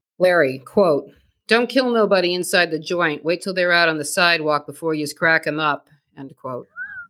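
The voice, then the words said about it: Put-on Boston accent. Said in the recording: “put on my Boston accent”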